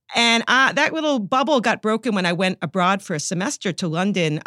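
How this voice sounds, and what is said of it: New York accent. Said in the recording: “I'm a New Yorker, as you can probably detect from my ... accent.”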